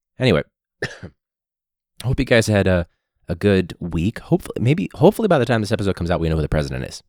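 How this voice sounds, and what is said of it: Sore throat, vocal fry. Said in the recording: “it sounds like vocal fry right now, but it's because my throat's super sore”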